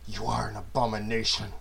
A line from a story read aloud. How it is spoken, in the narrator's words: whispered through gritted teeth